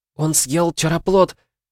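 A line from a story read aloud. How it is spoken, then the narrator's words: Squeak. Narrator (Russian): пискнула Михли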